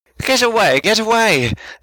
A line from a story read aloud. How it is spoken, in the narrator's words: he yelled